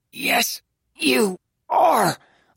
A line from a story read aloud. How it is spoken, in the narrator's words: Lou said through gritted teeth